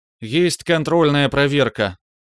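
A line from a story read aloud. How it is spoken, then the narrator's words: Tired but uncomplaining voice. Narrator (Russian): Голос Браилова звучал устало, но даже нотки недовольства не слыхать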